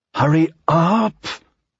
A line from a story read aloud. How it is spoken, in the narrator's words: she said through clenched teeth